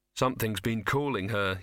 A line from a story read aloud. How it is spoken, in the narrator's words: he said